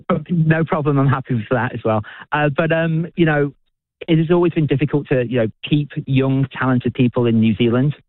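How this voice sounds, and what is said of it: British accent. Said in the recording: “you may be able to tell from my accent, I'm not originally from New Zealand, I'm originally from the UK”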